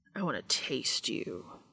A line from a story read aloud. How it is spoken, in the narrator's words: he growled